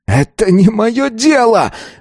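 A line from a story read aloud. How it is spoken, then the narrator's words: Exploding, nearly yelling. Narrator (Russian): взорвался Азар, снова едва не заорав на всю подземную комнату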